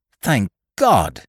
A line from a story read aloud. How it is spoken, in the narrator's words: he cried